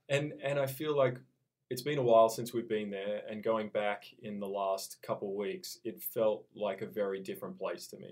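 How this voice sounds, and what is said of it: Australian accent. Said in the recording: “no hint of a loss of your Aussie accent”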